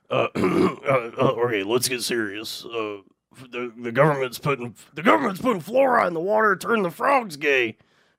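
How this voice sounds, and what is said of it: Imitates another person's voice. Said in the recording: “I can do an impression. I think I can do Alex Jones.”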